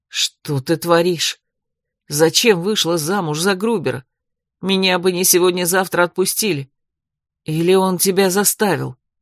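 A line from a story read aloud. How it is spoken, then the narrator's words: Angry whisper. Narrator (Russian): Эрик зло прошептав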